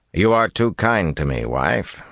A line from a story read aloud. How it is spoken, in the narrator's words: replied dryly